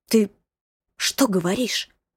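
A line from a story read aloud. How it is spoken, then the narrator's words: Whisper. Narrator (Russian): прошептала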